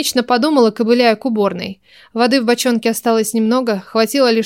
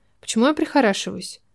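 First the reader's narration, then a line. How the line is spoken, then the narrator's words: Mumbled. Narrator (Russian): пробормотала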